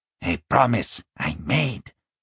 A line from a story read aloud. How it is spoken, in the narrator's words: he said quietly